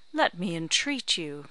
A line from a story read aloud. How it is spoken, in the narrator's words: cried Mr